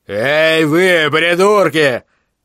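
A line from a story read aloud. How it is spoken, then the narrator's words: Yelled. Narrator (Russian): заорал он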